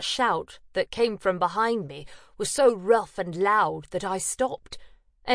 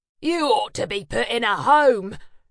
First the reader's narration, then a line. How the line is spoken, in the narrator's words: roared